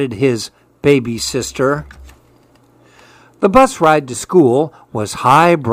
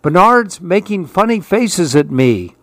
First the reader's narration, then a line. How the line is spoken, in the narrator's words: screamed his brother